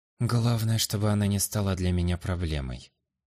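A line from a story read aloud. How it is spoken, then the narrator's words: Whispering to self. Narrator (Russian): тихо прошептал я себе под нос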